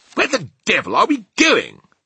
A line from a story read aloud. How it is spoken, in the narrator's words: he cried